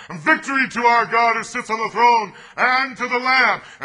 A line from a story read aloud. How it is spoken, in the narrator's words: they shouted together